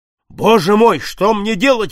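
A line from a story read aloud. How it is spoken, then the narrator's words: Desperate exclamation. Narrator (Russian): воскликнул незнакомец в порыве отчаяния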